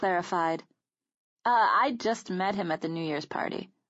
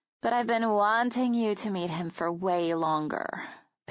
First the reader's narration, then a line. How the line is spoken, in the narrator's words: Peyton sighed